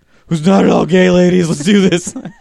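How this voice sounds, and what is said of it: Gruff put-on sexy voice. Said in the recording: “sexy voice ... My sexy voice is that of a small bear.”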